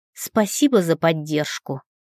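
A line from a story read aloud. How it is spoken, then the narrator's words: Snort. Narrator (Russian): фыркнула я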